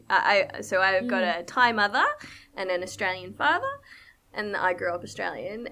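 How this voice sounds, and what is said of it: Australian accent. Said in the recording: “I sound Australian”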